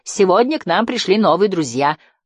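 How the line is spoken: Shout. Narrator (Russian): выкрикнул акробат

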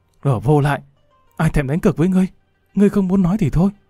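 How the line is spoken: Hissing through clenched teeth. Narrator (Vietnamese): nàng nghiến răng rít lên

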